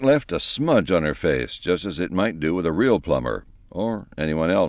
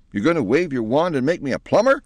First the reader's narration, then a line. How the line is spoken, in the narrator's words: cried Penelope in a relieved tone